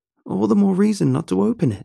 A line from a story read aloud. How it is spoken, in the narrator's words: Kim cried